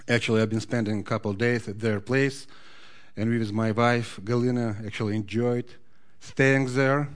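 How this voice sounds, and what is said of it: Noticeable foreign accent. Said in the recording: “can you hear my accent? You cannot help but hear my accent”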